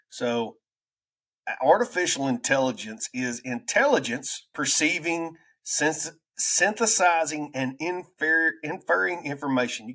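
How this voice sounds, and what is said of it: Southern American redneck accent. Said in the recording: “my redneck rambling accent”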